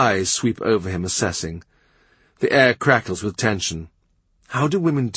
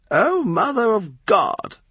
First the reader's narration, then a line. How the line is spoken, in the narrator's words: Lady Bryan moans